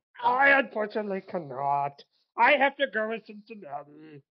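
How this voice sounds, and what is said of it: Puppet-like character voice. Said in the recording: “you sounded like a fucking Sesame Street character when you tried to use your voice ... He sounded like Avenue Q.”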